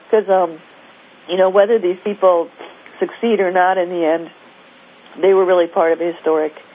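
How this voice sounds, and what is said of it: Voice worn from being sick. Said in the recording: “I've been sick for the last week, so my voice is kind of”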